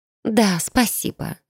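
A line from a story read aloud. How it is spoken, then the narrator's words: Sigh. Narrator (Russian): вздохнула она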